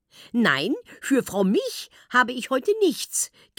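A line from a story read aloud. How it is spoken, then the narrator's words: Grandmother giggling. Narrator (German): kichert Oma Jutta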